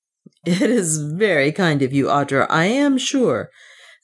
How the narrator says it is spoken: said Leonard with something like a laugh

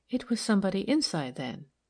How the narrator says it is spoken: said Milly quietly

